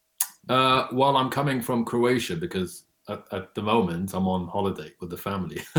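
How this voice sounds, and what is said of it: London English accent. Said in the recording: “I can hear your accent. You have a London accent.”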